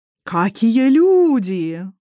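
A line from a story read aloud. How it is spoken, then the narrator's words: Howling. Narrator (Russian): взвыл последний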